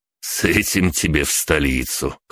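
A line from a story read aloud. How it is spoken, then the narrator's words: Wry snort. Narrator (Russian): хмыкнул Риордон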